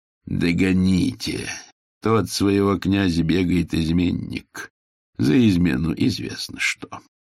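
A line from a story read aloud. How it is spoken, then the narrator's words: Quietly. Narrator (Russian): Ужасный человек ... негромко сказал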